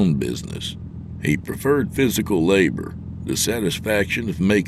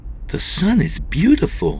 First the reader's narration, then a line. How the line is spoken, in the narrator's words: she exclaimed